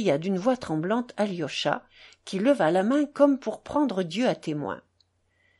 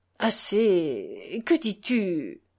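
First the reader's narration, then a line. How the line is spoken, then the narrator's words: Bewildered murmur. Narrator (French): murmura-t-il comme égaré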